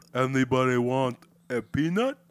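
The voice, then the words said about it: Imitates another person's accented voice. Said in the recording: “Andre the Giant ... I love his accent. It's so hilarious.”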